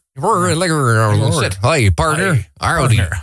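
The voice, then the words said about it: Put-on cowboy accent. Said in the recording (Dutch): “een raar cowboy-accent”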